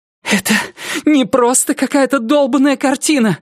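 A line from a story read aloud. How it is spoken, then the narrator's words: Shouted. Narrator (Russian): закричала Рози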